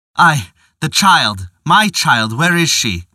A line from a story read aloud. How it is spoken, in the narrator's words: cried in agony